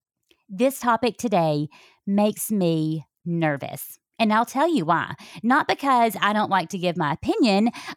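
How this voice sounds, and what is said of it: Southern US accent. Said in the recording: “the Southern accent gets worse when I'm feeling very passionate about a subject ... toning down the accent”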